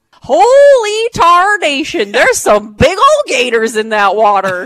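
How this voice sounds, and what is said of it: Put-on folksy accent. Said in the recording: “You got to do that in the accent.”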